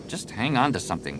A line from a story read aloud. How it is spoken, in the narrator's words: Jason muttered